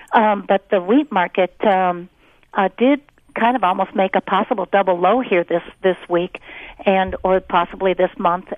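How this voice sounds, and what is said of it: Strained voice giving out. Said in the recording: “I'm losing my voice here.”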